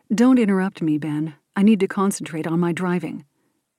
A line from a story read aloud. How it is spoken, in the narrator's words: curtly responds